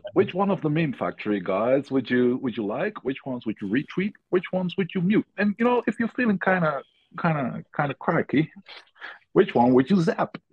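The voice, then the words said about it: Put-on accent. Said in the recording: “Where's the accent? Come on.”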